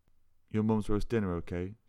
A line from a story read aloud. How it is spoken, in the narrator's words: slurred